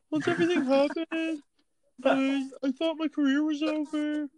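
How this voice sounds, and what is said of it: Kathy Griffin impression. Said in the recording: “that's a pretty good Kathy Griffin impression”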